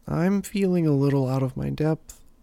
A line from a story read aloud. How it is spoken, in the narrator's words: Getaway said, his voice quiet